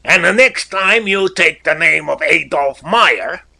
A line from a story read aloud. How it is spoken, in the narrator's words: shouted